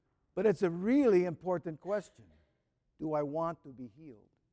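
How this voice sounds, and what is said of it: Usual voice. Nothing is said of it.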